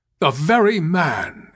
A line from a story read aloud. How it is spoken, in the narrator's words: exclaimed the general, advancing with manifest delight